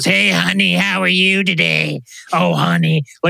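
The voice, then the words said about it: Sounds like Krusty the Clown. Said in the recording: “sound exactly like Krusty Clown ... That's your best impression that you didn't mean to do”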